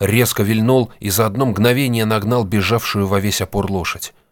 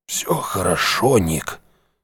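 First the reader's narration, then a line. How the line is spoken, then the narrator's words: Hoarse rasp. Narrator (Russian): прохрипел он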